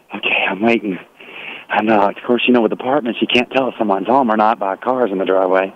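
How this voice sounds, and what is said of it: Out of breath, panting speech. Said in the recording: “I am out of breath.”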